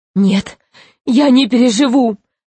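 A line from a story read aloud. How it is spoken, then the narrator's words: Sobbing. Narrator (Russian): рыдал Гарольд Иванович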